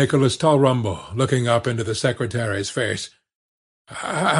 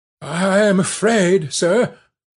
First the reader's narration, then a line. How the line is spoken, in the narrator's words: faltered Mr